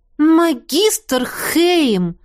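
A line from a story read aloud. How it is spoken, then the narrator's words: Indignant exclamation. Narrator (Russian): возмущенно воскликнула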